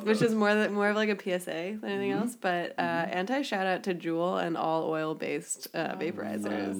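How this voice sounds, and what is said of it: Sick, rough-sounding voice. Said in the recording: “ill as fuck for the past week, as you can probably hear from my voice.”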